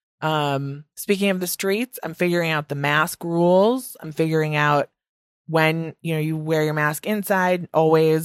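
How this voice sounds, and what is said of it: Midwestern American accent, long vowels. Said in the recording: “my Midwest accent is back in full effect ... a lot of long vowels”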